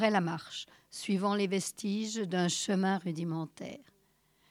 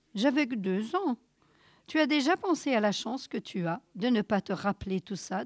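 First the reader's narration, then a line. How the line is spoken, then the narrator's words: Plain. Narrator (French): demanda Caleb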